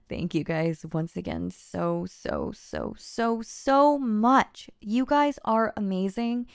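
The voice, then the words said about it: Congested, nasal voice. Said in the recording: “I sound nasally through this whole thing ... allergies are going nuts on me right now, and I can only breathe out of one nostril”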